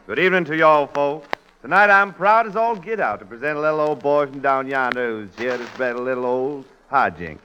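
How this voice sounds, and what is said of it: Put-on Southern US accent. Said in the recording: “What was that southern accent? ... a dialect like that ... that hoe cake accent you've got there”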